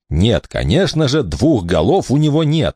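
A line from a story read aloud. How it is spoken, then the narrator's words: Irritated reply. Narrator (Russian): раздраженно ответил Элистер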